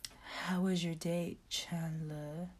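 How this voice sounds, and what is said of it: Sexy, seductive voice. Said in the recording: “in a sexy voice, she's trying to copy the Italian girl”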